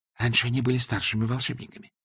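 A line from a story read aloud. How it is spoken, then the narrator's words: Whispered reply. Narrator (Russian): шепнула в ответ Эск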